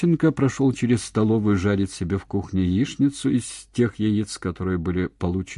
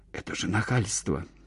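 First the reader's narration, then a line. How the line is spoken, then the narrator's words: Whispered complaint. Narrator (Russian): шепотом пожаловалась Зося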